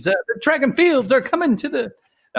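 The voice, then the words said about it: Poor attempt at transatlantic accent. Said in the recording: “develop my transatlantic accent and we can start speaking in 1920s ... That was terrible.”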